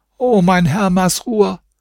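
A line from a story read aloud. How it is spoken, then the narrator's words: Old woman calling. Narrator (German): rief die Alte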